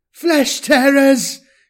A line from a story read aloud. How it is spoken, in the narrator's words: screamed into the vox mic built into her armour's collar